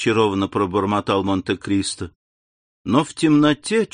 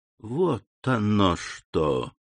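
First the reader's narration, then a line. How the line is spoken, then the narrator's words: Soft exclamation. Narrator (Russian): негромко воскликнул Монте-Кристо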